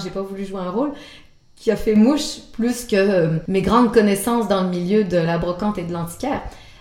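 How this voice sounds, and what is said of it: Québécois French accent. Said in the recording (French): “entendu mon accent québécois ... qui a l'accent québécois”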